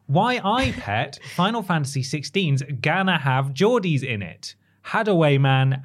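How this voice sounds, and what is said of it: Put-on Geordie accent. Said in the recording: “Was my accent good? ... It was really good.”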